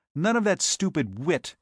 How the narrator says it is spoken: he snapped

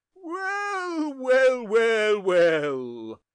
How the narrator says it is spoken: said the Archdeacon, loudly, joyously, and with supreme good humour

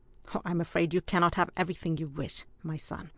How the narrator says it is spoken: replied Ardroy rather grimly

